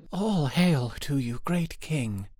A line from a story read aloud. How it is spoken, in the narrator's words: answered the girl, in a gentle, trembling voice